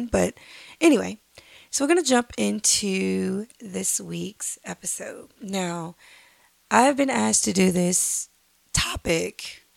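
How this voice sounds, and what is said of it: Slightly hoarse voice. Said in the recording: “I'm still a little hoarse”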